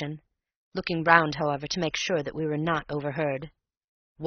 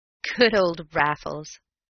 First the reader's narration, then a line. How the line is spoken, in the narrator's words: I chuckled